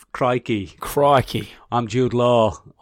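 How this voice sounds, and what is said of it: Deliberately bad Australian accent. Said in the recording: “he plays an Australian for some reason ... He's not great at the accent, so it's a bit all over the place”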